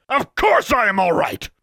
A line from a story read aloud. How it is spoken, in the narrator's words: bellowed